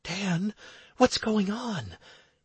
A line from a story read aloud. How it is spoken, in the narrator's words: I heard Anastarius whisper in my head